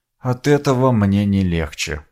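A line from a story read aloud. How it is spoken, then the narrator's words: Mumbling. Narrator (Russian): пробормотал я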